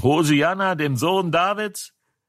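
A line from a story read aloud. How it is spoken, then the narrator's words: Children shouting. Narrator (German): die Kinder, die im Tempel schrien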